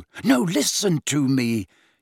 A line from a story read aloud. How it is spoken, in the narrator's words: he hissed angrily